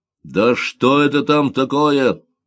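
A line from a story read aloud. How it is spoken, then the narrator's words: Admiral shouting. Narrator (Russian): закричал адмирал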